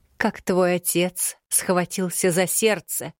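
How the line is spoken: Deadly tone, out loud. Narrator (Russian): Убийственным тоном произнесла кладенец, уже не боясь говорить в голос

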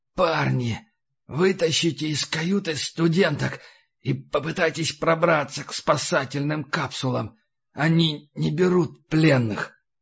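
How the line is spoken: Rasping in pain. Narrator (Russian): прохрипел

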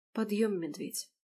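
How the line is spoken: Whisper. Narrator (Russian): прошептала

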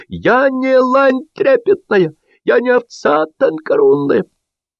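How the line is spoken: Shrieking. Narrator (Russian): она визжала

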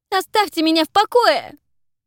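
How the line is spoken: Shout. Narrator (Russian): закричала

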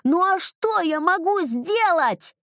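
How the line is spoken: Shouting at full strength. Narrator (Russian): я закричал изо всех сил

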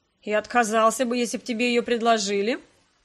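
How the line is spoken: Mocking question. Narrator (Russian): спросил насмешливо Скарлетт

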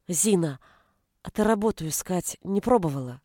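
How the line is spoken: Timid question. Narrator (Russian): робко спросила Галя

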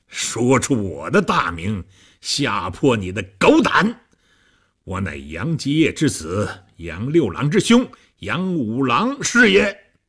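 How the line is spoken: Loud hearty laughter. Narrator (Chinese): 和尚哈哈大笑

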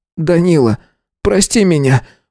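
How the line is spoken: Sobbing. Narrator (Russian): всхлипнул

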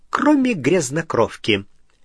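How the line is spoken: Gleeful snort. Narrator (Russian): Сивый радостно хмыкнул

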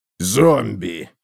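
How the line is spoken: Hoarse rasp. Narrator (Russian): прохрипел Готрек

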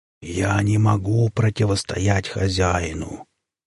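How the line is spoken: Lowered to a whisper. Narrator (Russian): коршун понизил голос до шепота

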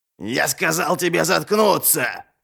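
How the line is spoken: Guard's growl in face. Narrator (Russian): прорычал один из охранников ей в лицо

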